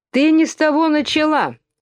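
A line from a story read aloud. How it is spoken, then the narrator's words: Shouting. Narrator (Russian): закричал двойнюшечка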